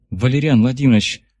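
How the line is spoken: Sighing. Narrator (Russian): вздохнула

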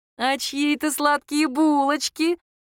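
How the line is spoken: Mother's tender squeal. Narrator (Russian): умилительно взвизгнула мама

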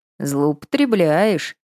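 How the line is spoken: Grumbled. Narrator (Russian): проворчал

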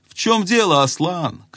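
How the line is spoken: Young man shouting. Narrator (Russian): крикнул юноша

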